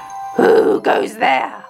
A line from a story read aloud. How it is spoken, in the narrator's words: roared the troll